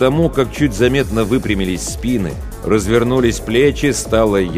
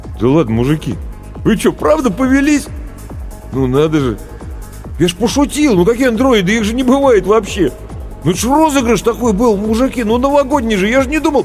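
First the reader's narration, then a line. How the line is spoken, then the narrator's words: Flustered babbling. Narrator (Russian): продолжал растерянно лопотать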